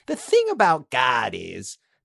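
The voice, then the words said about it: Put-on voice unlike his own. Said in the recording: “he's doing sort of a voice ... different voice than yours ... almost like the same speech patterns as Nick”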